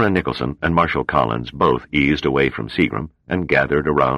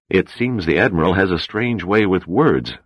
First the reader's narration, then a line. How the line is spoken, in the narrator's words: said the President